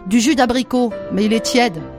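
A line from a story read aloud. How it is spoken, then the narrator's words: Plain. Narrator (French): dit la femme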